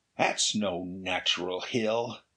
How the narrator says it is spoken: Ray grunted

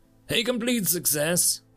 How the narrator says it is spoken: Barnyard laughed

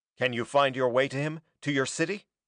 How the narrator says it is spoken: Norman asked

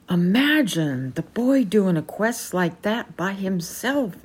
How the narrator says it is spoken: exclaimed Sir Hector

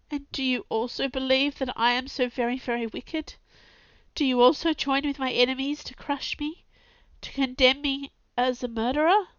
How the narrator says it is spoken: His voice was suffocated with sobs

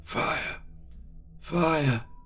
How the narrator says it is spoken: moaned Anscott faintly

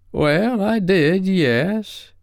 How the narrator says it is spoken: he said with a drawl

